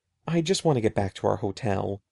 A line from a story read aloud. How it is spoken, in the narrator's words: he murmured